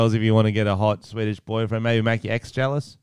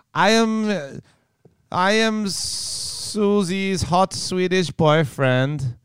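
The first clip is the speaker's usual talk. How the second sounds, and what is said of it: Put-on Swedish accent. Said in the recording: “Like my accents? I got pretty good accents. ... sexy accents ... a hot Swedish boyfriend”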